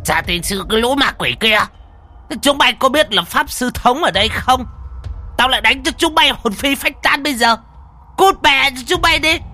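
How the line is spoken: Hissing old man. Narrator (Vietnamese): Lão mà rít lên

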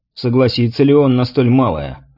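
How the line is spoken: Skeptical snort. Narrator (Russian): недоверчиво хмыкнул Михаил

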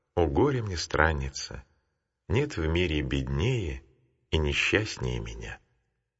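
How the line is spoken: Tearful, heavy-sighing. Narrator (Russian): Тяжко вздохнув, Матфидия прослезилась и сказала

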